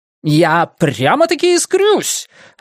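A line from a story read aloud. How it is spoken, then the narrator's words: Joyful blurt. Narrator (Russian): радостно выпалил он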